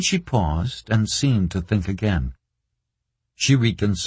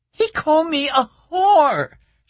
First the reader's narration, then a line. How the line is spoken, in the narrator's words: she screamed